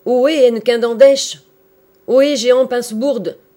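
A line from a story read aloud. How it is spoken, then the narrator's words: Shouting at top of lungs. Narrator (French): cria-t-il à tue-tête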